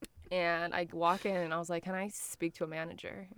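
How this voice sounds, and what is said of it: American accent. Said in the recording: “I just moved here from America, as if he couldn't tell by like my ... accent.”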